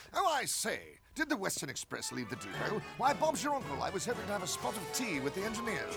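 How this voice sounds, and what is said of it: Put-on British accent. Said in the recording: “has a British accent”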